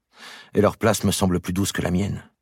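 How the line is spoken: Sighing. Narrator (French): dit Isabelle en soupirant

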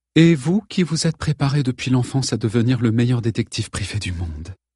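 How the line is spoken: Light amused tone. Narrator (French): souligna-t-elle, mais cette fois d'un ton plus léger, s'amusant visiblement

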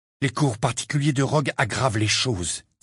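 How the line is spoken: Sharp, cutting tone. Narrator (French): dit Harry d'un ton tranchant

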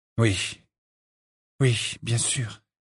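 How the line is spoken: Dejected tone. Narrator (French): dit Harry d'un ton accablé

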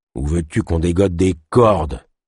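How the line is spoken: Trapper's growl. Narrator (French): grogna le trappeur

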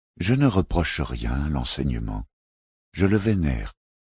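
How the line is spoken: Calm knight affirming. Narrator (French): affirma calmement le chevalier

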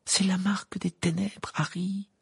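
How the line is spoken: Moaned. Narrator (French): gémit Hermione en le tirant vers elle de toutes ses forces

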